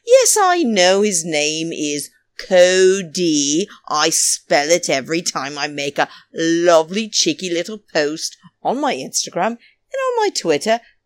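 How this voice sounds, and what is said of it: Speaker's own noticeable accent. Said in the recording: “I have a bloody accent”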